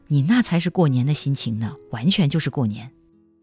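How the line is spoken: Serious. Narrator (Chinese): 花一脸严肃 道

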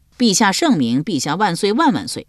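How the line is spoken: Hurried loud. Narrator (Chinese): 小宋 忙高声说

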